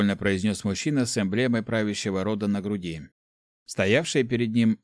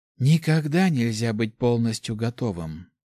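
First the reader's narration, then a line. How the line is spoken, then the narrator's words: Sighing woman. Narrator (Russian): вздохнула женщина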